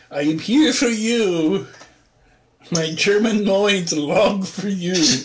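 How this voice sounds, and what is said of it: Put-on German accent. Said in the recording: “that's a great German accent.”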